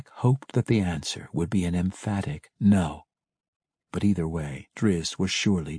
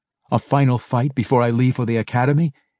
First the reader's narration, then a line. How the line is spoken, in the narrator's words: he laughed